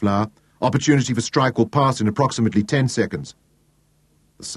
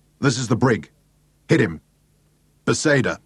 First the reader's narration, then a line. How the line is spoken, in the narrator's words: his voice was curt and harsh